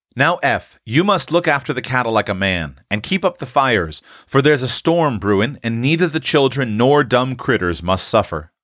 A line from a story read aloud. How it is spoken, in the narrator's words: said Mr